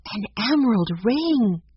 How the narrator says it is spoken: gasped

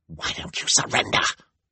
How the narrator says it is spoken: hissed

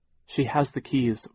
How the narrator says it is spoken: Violet said

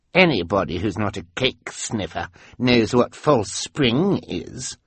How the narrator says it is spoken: Carmelita said in a scornful voice

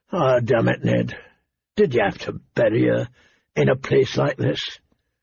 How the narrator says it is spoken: His voice was hoarse with remembered grief

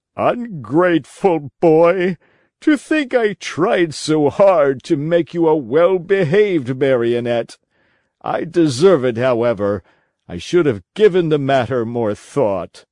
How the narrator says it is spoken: The poor old fellow wept and wailed like a child, and said between his sobs

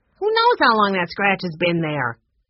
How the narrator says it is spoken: Ned snapped

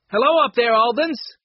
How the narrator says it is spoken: shout came from below

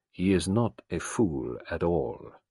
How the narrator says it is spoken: Gerard said gravely

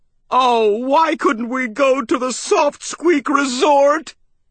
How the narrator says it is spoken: I moaned

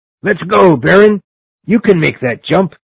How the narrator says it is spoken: Blantyre cried to me

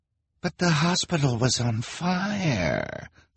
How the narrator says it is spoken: the woman whined

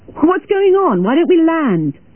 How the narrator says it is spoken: shouted a middle-aged man

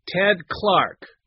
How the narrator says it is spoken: a voice said loudly behind her

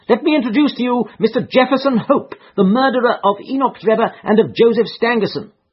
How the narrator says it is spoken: he cried with flashing eyes

